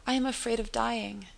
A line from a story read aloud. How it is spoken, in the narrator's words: He cries